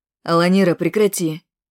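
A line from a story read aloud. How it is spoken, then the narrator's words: Stern. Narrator (Russian): строго сказал Бугай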